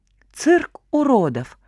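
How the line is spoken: Careless exhaled remark. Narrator (Russian): Уже не заботясь, повторит его слова Салям или нет, выдохнул Ватька

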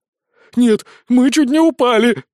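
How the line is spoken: Child's wail. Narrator (Russian): взвыл мальчик-волшебница-фея

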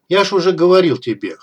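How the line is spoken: Amused snort. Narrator (Russian): хмыкнул я

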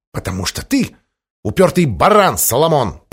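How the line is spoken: Hissing. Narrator (Russian): прошипела сеньора Кишкус

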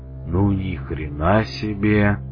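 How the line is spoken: Breathless exclamation. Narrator (Russian): выдохнул выдра, до этого молчавший как рыба

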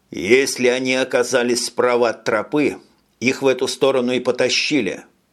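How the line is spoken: Plain. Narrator (Russian): сказал Тони

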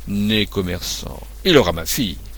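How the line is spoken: Grumbling. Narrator (French): dit César en grommelant

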